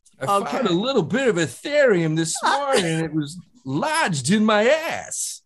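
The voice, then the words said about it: Imitates another person's voice, badly. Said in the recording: “That's Christopher Walken, people. ... That sounds like if Christopher Walken was trying to be a talk show host while doing a Neff impression ... it was so fucking bad”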